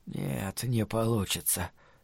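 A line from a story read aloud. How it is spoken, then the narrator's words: Breathless mutter. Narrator (Russian): пробормотал он, переводя дыхание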